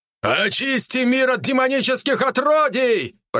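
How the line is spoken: Shout. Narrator (Russian): прокричал другой командир

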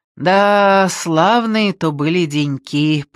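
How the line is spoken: Drawled. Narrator (Russian): протянул он

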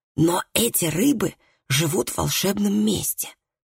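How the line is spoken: Whisper. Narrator (Russian): прошептал Колгрим

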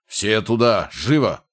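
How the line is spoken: Commander's barked order. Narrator (Russian): рявкнул другой голос, явно принадлежащий командиру

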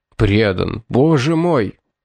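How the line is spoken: Moaning old man. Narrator (Russian): простонал бедный старик

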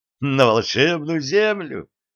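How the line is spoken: Uncontrollable laughter. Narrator (Russian): Шефер не сдержался и засмеялся

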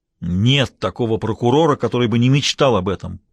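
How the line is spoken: Roaring. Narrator (Russian): проревел Мейсон

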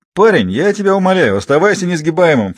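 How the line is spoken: Snorted. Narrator (Russian): фыркнул Лаврик

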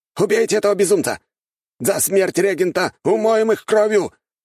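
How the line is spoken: Loud shout. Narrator (Russian): прокричал культиватор, явно из придворных

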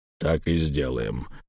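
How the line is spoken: Muffled, flat. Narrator (Russian): глухо сказал Эльм

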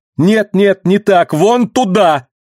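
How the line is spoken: Shout. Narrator (Russian): крикнула Рэдси

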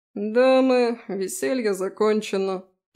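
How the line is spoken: Groan. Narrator (Russian): простонал Фрей

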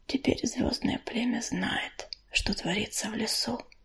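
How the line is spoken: Very quiet mutter. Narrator (Russian): пробормотала она, но так тихо, что ее услышала только Листвичка

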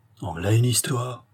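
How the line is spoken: Woman murmuring. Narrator (French): murmura la femme

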